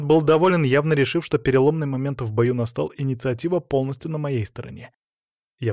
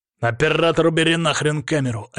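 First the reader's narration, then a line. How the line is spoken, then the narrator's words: Bark. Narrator (Russian): рявкнул он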